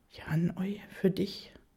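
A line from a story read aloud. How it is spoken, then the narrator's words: Almost whispering, shy. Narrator (German): sage ich fast flüsternd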